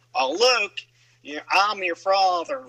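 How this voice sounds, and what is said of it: Goofy southern-accented Darth Vader voice. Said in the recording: “or even a southern accent ... Goofy as Darth Vader”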